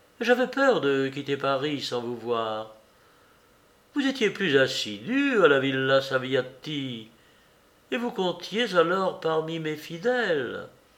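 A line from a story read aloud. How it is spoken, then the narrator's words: Countess, friendly familiar voice. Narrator (French): dit la comtesse d'une voix amicale et familière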